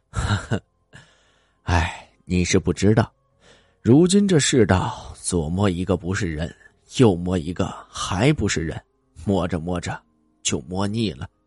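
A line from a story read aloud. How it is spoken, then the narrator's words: Sighing. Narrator (Chinese): 张师傅叹了口气道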